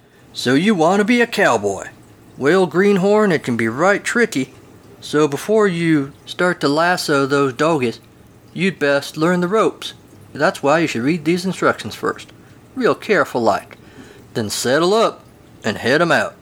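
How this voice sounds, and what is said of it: Generic cowboy accent. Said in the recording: “That was my generic cowboy dialect.”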